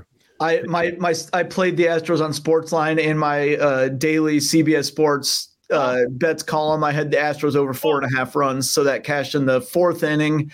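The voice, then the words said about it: Sick, altered voice. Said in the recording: “I'm also sick as a result, and that's why my voice sounds different.”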